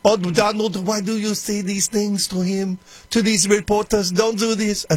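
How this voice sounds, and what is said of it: Poor imitation of another person's voice. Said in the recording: “That's a terrible Melania impression.”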